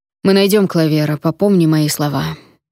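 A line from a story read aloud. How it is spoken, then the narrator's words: Gloomy voice. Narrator (Russian): мрачно сказал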